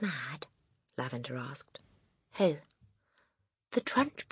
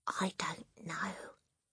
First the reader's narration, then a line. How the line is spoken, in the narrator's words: Matilda whispered back